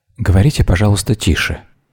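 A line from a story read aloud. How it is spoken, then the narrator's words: Whispering. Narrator (Russian): шепнула Вера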